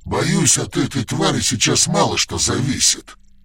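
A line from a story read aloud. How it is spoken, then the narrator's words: Growling. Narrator (Russian): прорычал Рогадан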